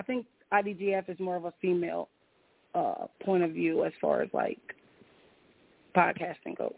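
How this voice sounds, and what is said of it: Hoarse, strained voice. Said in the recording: “I'm so hoarse, you guys. I have no voice.”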